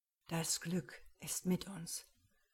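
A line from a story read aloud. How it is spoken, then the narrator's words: Whisper to the captain. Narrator (German): flüsterte Krag dem Kapitän zu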